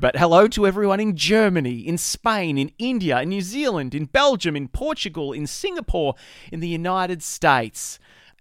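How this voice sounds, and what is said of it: Australian accent. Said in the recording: “you can tell from my accent, I'm based here in Australia”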